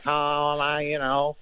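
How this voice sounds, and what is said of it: Imitates another person's voice. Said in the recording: “Everybody does a Phil impression.”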